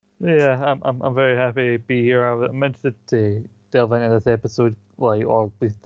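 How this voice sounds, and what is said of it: Usual voice. Nothing is said of it.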